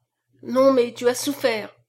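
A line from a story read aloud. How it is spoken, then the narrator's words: Reviving sick man's cry. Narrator (French): s'écria le malade qui reprenait vie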